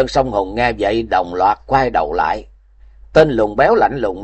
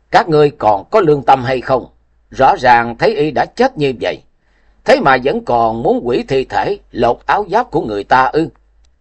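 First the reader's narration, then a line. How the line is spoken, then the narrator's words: Loud scolding. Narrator (Vietnamese): lớn tiếng mắng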